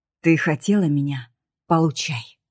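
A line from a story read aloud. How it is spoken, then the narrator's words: Cold, low, hoarse with anger. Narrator (Russian): сказал я холодно, и голос мой звучал низко, почти хрипло, от гнева и напряжения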